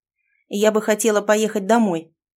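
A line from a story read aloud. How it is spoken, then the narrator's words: Sharp reply. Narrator (Russian): резко ответила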